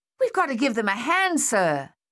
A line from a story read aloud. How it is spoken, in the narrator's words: Thaddeus yelled